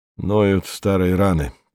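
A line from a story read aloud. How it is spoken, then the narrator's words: Muttered. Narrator (Russian): пробурчал он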